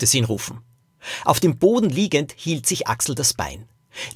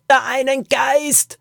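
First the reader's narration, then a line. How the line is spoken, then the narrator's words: Shouting over cave noise. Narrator (German): schrie sie ihm durch den Lärm in der Höhle zu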